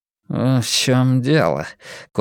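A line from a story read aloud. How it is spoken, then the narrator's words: Curt grumble. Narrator (Russian): коротко буркнул Блор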